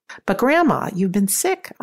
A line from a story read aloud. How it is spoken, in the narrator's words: I exclaimed